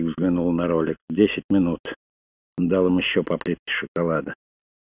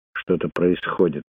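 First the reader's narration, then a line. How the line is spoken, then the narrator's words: Muttered. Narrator (Russian): пробормотал Крейг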